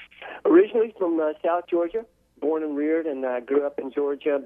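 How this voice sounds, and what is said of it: Southern American accent. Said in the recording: “I hear that Southern accent... I've been able to maintain at least a bit of my accent”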